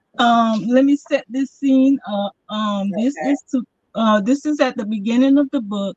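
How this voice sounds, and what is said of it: Thick Southern American accent. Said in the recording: “I do have a very thick Southern accent, so sometimes those words don't come out quite the way you might be used to”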